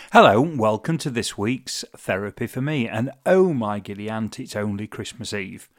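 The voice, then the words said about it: Giddy, excited voice. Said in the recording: “As you can probably tell from my voice, I'm quite giddy”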